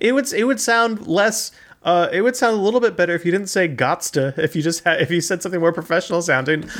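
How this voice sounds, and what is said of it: Usual voice. Nothing is said of it.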